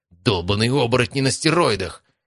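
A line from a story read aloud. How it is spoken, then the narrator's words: Shout. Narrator (Russian): крикнул Матвей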